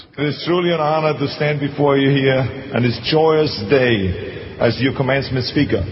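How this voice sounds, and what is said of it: Austrian accent. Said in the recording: “with my accent, I was worried they're going to deport me back to Austria”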